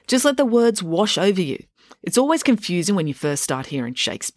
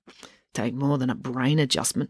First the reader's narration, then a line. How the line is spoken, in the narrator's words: muttered Selby